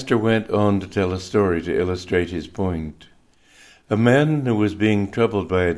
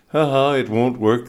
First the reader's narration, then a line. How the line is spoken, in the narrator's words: the demon laughed